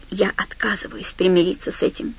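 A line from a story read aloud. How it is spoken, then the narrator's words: Whispering. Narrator (Russian): прошептал Ларри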